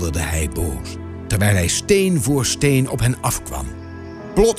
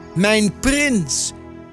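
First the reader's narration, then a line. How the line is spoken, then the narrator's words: Calling out. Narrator (Dutch): riep Adelheid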